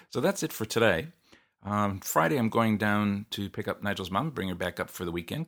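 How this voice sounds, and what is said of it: Strained, worn-out voice. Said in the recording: “my voice is just about to give out”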